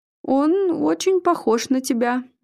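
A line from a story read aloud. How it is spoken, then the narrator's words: Uncertain. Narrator (Russian): неуверенно продолжил Игорь, понимая всю двусмысленность произнесенной фразы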